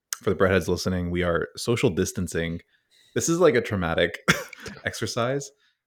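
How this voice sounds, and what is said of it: Sick, under-the-weather voice. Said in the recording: “I am a little bit under the weather, as you might be able to tell from my voice.”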